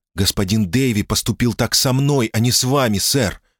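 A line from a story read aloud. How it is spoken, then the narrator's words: Angry blurt. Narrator (Russian): сердито выпалила Кэтрин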